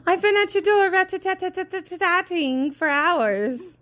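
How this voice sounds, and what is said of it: Fancy put-on accent. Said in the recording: “I don't know why we had to say that with an accent... Because it's fancy... Yeah, it sounds more lovely.”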